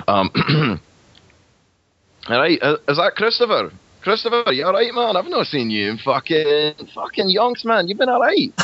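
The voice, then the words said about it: Put-on Dundonian Scottish accent. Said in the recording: “quickly affect a Dundonian accent... So I did all right. and it sort of sounds a little bit as follows”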